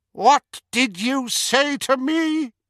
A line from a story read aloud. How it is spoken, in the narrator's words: His voice was high and cold, but fury and fear burned inside him